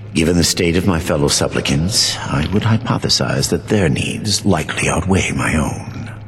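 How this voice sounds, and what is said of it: Creepy character voice. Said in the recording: “he's also got a really creepy voice”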